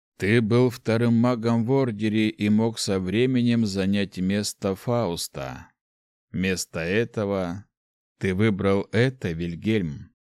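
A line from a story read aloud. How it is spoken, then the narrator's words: Muttered under breath. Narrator (Russian): пробурчал себе под нос человек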